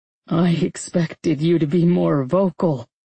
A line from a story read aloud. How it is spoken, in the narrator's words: he laughed, his mouth against my skin